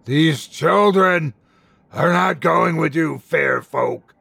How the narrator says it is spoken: he howled

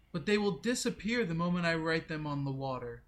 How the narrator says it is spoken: First Woman called out

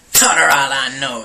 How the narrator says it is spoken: sneered Pearl

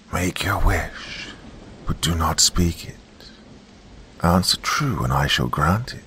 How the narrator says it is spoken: the Witherer rasped

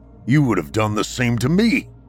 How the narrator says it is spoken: exclaims Gon

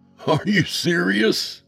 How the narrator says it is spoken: I laughed

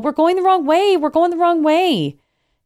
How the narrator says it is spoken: yell

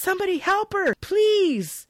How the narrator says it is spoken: From the floor, he yells

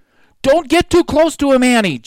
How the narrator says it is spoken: Jack shouted

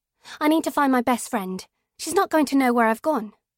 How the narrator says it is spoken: I say quickly

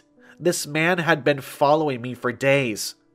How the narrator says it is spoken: she cried, her voice rising

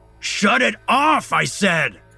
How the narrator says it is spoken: Alex shouts over the noise

